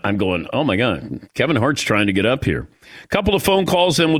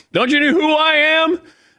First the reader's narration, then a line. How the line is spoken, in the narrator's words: Kevin Hart's drunk trying to get on the podium yelling